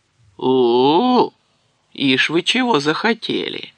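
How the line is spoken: Mocking rumble. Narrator (Russian): насмешливо прогудел Древень

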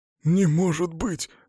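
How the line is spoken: Breathless. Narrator (Russian): выдохнул он

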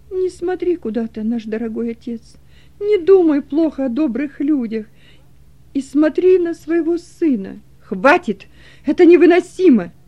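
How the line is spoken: Loud, trembling voice. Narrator (Russian): произнес громко Кунерих, дрожащим голосом

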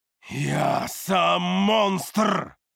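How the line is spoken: Roaring, booming echo. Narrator (Russian): Взревел я видению, и мой голос завибрировал гулким эхом

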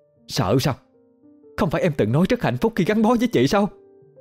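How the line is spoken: Harsh, flushed anger. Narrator (Vietnamese): Đẹp đỏ mặt gay gắt

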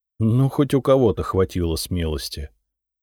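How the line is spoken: Tired, smiling. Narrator (Russian): устало улыбнулся

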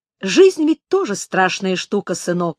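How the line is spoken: Plain. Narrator (Russian): сказал Гет

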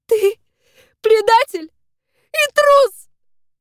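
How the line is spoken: Sobbing. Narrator (Russian): всхлипываю

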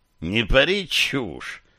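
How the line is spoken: Snorted. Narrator (Russian): фыркнул Горлогориус

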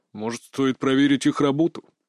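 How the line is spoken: Deep bass voice. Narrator (Russian): пробасил Змеев

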